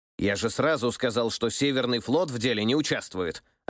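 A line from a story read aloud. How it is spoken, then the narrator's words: Snapping retort. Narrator (Russian): огрызнулся тот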